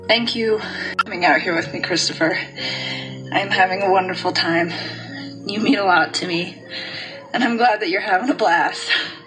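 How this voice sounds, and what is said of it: Breathless, out of breath. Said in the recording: “I am so out of breath.”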